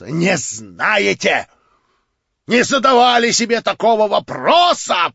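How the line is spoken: Shouted with pathetic irony. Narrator (Russian): прокричал он с патетической иронией

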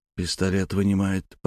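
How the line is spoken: Whisper. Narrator (Russian): прошептал Алексею за спиной Дмитрий

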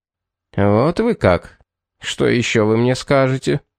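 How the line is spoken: Displeased grumble. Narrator (Russian): пробурчал недовольно

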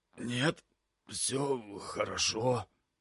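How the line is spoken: Strange wheezing voice. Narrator (Russian): прохрипел я не своим голосом

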